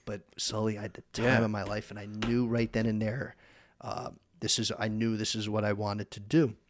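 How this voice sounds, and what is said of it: Northern New Jersey accent. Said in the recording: “I got this Northern New Jersey accent”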